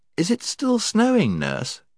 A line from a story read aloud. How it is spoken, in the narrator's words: she asked sleepily